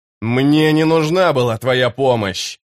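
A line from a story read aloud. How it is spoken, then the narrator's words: Growled. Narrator (Russian): прорычал он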